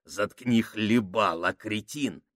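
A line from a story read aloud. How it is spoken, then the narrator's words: Hissing. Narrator (Russian): прошипел Сакс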